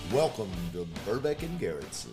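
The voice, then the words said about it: Deep baritone radio announcer voice. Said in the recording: “radio voice ... Your radio voice is... It's sexy. ... Attractive. ... this big ass baritone”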